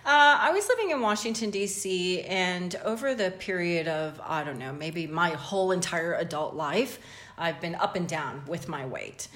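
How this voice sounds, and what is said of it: North American accent. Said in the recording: “you can tell by this crazy accent that I'm from North America originally”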